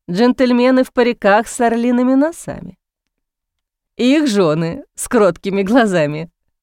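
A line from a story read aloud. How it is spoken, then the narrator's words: Laughing. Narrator (Russian): смеясь, подхватил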